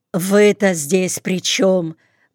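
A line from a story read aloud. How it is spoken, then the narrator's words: Blunt, almost rude question. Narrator (Russian): почти грубо и в упор спросила Тоня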